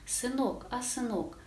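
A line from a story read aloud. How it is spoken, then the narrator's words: Tender, affectionate mother's voice. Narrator (Russian): Эта мать голос у нее нежно-ласковый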